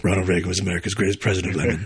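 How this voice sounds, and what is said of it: Good Alec Baldwin impression as Jack Donaghy. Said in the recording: “That's actually pretty good Alec Baldwin imitation.”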